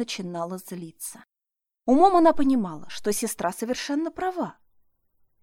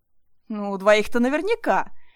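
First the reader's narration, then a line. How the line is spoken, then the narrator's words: Laughing loudly. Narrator (Russian): расхохоталась Марина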